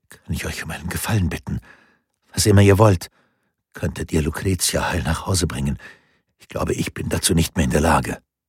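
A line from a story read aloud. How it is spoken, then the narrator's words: Whispered. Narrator (German): flüsterte Lorenzo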